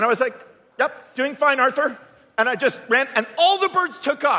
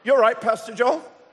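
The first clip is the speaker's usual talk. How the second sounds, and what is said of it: Put-on British accent. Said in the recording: “No, he didn't have a British accent. I don't know why I did.”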